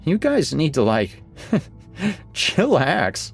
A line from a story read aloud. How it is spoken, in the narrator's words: I giggle